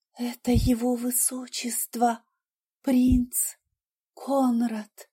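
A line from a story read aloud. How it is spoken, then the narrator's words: Whispered. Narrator (Russian): прошептала Катрина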